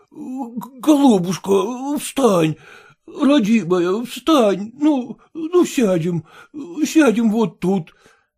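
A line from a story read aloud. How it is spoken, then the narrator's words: Insistent repetition. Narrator (Russian): твердил он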